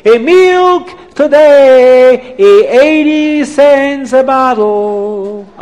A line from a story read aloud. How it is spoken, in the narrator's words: screaming